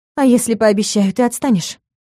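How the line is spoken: Tired question. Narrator (Russian): устало спросила

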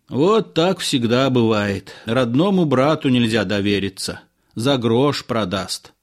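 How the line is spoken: Sighed. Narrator (Russian): вздохнул водитель

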